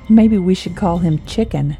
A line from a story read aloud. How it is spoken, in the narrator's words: Jade laughed